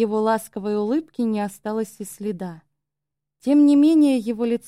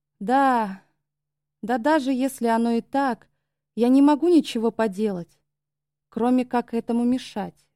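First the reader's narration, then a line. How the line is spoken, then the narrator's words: Sudden exhaled words. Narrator (Russian): выдохнул вдруг он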